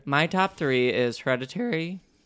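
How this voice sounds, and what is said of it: Voice cracks mid-sentence. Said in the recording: “my voice cracked.”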